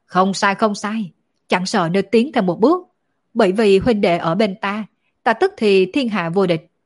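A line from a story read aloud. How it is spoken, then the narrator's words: Two voices laughing loudly together. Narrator (Vietnamese): Tạ Đan Quỳnh cùng Đổng Vô Thương đồng thời cười to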